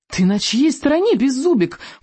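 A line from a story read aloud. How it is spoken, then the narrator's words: Howling while running. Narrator (Russian): взвыл, пробегая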